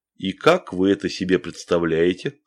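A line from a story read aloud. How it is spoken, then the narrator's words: Plain. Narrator (Russian): спросил Басов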